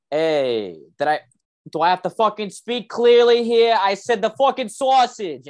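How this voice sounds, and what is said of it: Put-on Boston accent. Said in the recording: “they give me more when I do a Boston accent”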